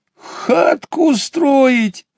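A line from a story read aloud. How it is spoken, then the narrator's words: Laughing. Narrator (Russian): рассмеялся ежик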